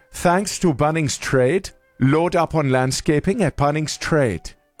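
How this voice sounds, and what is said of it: Put-on accent, sounds South African. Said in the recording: “I feel like it got stronger towards the end ... every accent we do comes out South African, so all I'm hearing is South African”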